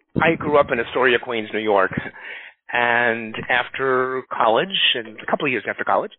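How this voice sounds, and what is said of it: Slight foreign accent. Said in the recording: “You have a little bit of an accent.”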